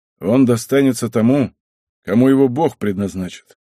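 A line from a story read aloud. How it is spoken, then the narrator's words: Calm, weighty answer. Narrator (Russian): Завиша, всегда говоривший очень спокойно и значительно, ответил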